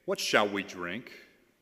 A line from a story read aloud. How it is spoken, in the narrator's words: the people grumbled against Moses, saying